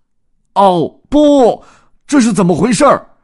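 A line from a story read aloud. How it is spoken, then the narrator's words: Shouting. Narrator (Chinese): 多兹不由得大喊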